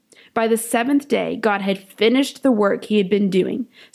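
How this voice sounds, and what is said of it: Polished radio-style reading voice. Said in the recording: “You have a great radio voice”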